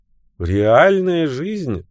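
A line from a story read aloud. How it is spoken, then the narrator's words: Laughing remark. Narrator (Russian): рассмеявшись, заметила Бриджит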